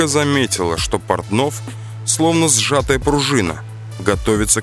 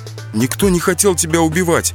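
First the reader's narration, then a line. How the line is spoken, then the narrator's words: Trembling voice. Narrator (Russian): дрожащим голосом сказал Марат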